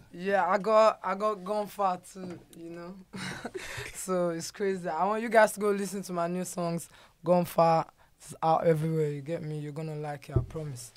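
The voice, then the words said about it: Heavy South London British accent. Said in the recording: “your British accent is heavy, bro ... are you actually from my hood in Peckham or Deptford? ... South London ... you sound like you were raised around my house”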